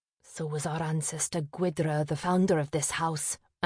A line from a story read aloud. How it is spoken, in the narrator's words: Averil muttered